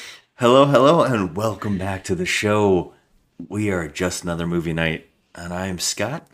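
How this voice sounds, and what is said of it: Usual voice. Nothing is said of it.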